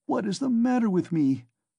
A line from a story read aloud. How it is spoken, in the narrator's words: he cried again, like one distraught